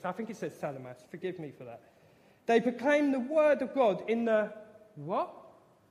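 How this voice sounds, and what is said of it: Speaks with a noticeable accent. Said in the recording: “I can't do place names. I'm really bad at it. My accent doesn't help me anything.”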